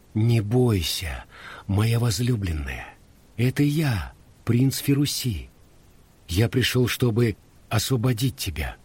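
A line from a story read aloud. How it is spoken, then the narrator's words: Calm quiet whisper, young man. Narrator (Russian): юноша спокойно тихонько шепнул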